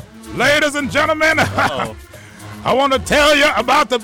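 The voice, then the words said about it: Put-on DJ or preacher voice. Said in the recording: “I'm going to use my cool DJ voice... That's actually my preacher voice”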